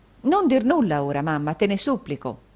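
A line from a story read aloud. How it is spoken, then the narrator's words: Plain. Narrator (Italian): disse Caterina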